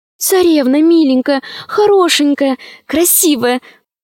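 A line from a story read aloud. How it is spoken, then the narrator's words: Pleading. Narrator (Russian): взмолилась Алиса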